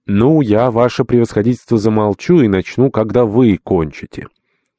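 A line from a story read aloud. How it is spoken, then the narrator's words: Loud. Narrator (Russian): владыка громко сказали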